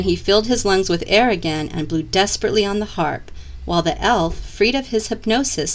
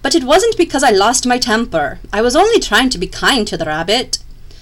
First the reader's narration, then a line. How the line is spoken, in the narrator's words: he cried